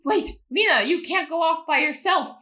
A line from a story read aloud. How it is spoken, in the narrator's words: he shouted in vain